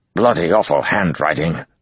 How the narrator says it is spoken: Arganda grumbled

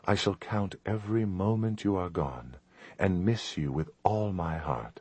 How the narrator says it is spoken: she said softly, her eyes liquid

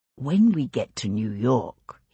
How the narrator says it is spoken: he whispered, bending to speak in her ear

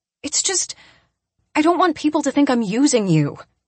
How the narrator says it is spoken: I blurt out

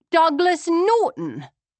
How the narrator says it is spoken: I cried

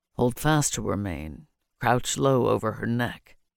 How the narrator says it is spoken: said roughly

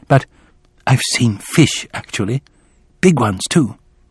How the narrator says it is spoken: He lowered his voice now, added

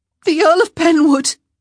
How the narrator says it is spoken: she cried out

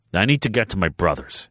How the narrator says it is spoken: growled

